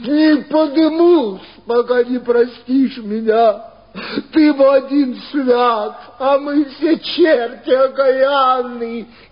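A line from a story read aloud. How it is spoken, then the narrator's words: Sobbing. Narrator (Russian): И зарыдал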